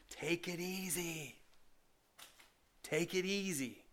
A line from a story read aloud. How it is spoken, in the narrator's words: your feet are yelling out at you